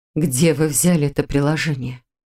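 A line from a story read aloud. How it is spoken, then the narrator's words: Suddenly hoarse question. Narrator (Russian): Вмиг охрипшим голосом спросила она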